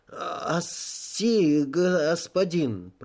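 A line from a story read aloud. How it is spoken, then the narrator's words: Stammering. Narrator (Russian): произнес он, заикаясь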